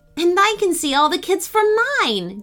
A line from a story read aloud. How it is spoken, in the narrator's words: Jane exclaimed